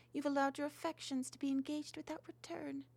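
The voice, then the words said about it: Melancholy, sorrowful voice. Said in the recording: “in a melancholy voice”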